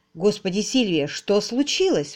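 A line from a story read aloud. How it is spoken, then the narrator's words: Exclamation. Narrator (Russian): воскликнул он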